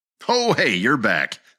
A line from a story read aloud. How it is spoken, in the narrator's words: exclaimed Ed